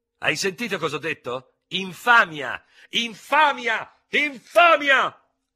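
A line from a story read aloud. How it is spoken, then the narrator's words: Screaming in fury. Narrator (Italian): urlava facendosi paonazzo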